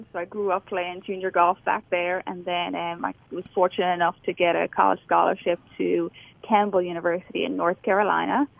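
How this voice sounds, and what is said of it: Irish accent. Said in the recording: “You're obviously not, you didn't obviously grow up in Alabama with your accent. ... So I'm from Ireland.”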